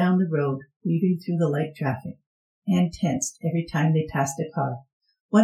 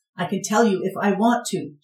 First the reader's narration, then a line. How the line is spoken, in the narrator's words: she shouted